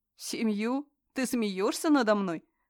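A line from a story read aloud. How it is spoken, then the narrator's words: Man laughing loudly. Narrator (Russian): расхохотался мужчина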